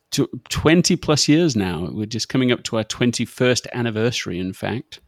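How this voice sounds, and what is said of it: British accent. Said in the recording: “holding on to the accent ... you're a pretty exceptional Brit”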